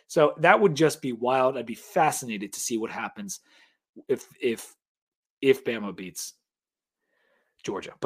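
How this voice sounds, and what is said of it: Hoarse, fading voice. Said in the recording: “I am losing my voice.”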